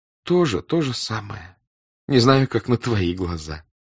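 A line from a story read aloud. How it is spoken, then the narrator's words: Joyful reply. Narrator (Russian): отвечала радостно княжна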